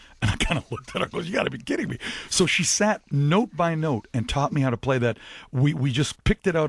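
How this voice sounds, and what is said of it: Usual voice. Nothing is said of it.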